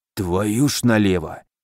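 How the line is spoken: Hoarse rasp, burly man. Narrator (Russian): прохрипел богатырь

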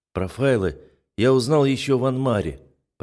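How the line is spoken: Dull muffled voice. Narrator (Russian): произношу глухо

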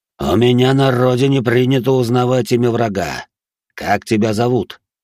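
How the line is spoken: Plain. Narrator (Russian): спросил тигр

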